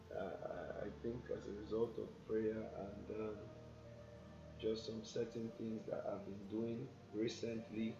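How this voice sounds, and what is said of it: Voice sounds a bit off. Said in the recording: “sorry about my voice. My voice is a bit off.”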